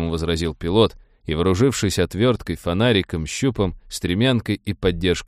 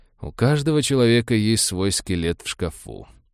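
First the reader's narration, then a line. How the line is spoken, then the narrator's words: Grim joking, doctor. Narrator (Russian): мрачно пошутил доктор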